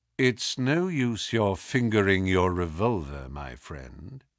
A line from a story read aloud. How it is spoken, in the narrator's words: he said in a quiet voice